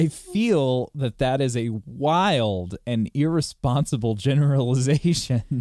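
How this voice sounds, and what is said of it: Usual voice. Nothing is said of it.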